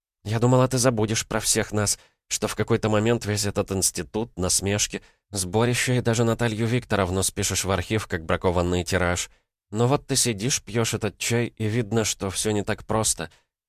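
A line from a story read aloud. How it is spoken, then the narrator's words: Smirking confiding whisper. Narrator (Russian): Лена усмехнулась, будто делилась шепотом с особенно дорогим покойником, сказала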